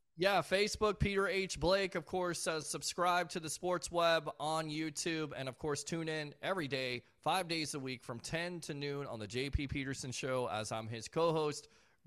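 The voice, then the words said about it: Hoarse, nearly lost voice. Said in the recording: “my voice is almost lost too ... This bug, it keeps on keeping on”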